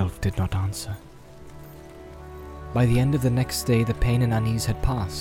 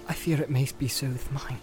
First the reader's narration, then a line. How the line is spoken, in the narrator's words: said Frodo